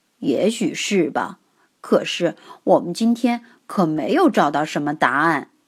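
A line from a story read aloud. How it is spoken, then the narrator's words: Muttering. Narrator (Chinese): 佐福嘀咕着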